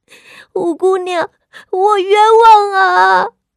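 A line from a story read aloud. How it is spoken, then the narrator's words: Young girl wailing, pleading. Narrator (Chinese): 其中一个丫鬟年纪尚小，竟当堂嚎哭了起来，求饶道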